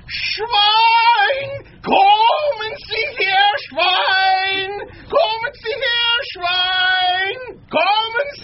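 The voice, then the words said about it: German accent, shouted hog call. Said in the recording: “someone has done come a hog call here ... The first time that it's been done in a German accent.”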